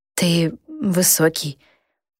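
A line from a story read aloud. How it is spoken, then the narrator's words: Barely audible. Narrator (Russian): произнесла я еле слышно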